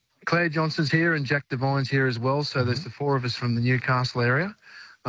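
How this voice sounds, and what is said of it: Australian accent. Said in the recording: “people overheard my accent. They, oh, you're Australian.”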